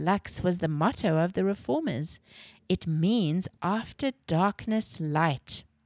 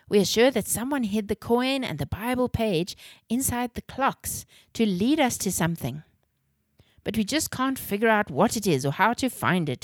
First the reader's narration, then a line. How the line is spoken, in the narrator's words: exclaimed Rome in a frustrated tone